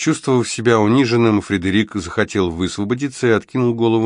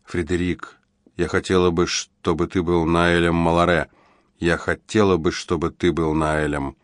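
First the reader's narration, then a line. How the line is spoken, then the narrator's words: Very quiet, intimate. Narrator (Russian): очень тихо сказала ему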